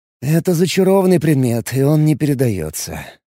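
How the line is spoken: Regretful sigh. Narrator (Russian): вздохнул с сожалением я

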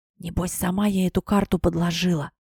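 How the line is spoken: Whisper in the ear. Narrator (Russian): на ухо прошептала мне Беата

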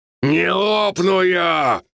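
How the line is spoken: Shouting in pain. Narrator (Russian): прокричал я от боли

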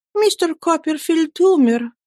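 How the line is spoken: Trembling voice. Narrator (Russian): дрожащим голосом сказала матушка

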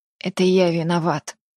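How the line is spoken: Whisper. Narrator (Russian): шептал он

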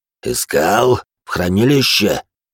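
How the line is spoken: Through gritted teeth. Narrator (Russian): сквозь зубы процедил багровый палач

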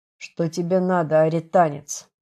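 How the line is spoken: Officer speaking through teeth. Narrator (Russian): процедил офицер

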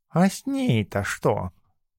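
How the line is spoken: Cat's purr. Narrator (Russian): мурлыкнул кот

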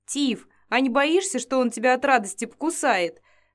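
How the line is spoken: Cheerful laughter. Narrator (Russian): Сказав это, Элла весело рассмеялась

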